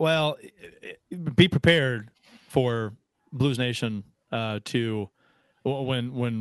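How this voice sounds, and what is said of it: Usual voice. Nothing is said of it.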